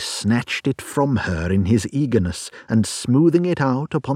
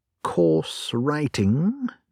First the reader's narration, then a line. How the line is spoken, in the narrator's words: murmured Holmes